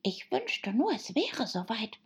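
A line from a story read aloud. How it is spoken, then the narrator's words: Whispering to himself. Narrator (German): flüsterte der Märzhase vor sich hin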